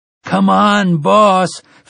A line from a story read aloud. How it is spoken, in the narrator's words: Finley Otego almost pleaded